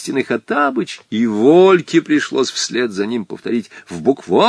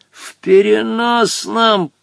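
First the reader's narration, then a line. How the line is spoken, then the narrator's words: Hissing. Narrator (Russian): прошипел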